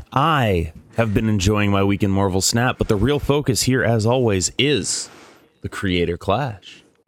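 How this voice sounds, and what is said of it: Radio announcer voice. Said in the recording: “radio voice”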